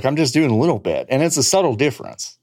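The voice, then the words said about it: Put-on East Texas accent. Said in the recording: “Is that what you sound like in Texas? ... when I go to Texas, this is what I sound like ... weird voice work ... you're not from fucking East Texas”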